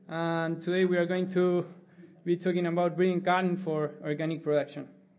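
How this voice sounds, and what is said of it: Argentine accent in English. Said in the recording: “I'm from Argentina, that's where my accent is from”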